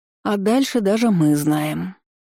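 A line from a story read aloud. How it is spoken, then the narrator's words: Sleepy yawning voice. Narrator (Russian): сонно зевнула Тейка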